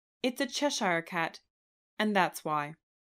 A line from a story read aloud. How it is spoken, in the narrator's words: said the Duchess